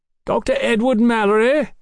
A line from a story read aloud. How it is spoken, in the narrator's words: a voice cried from the darkened floor below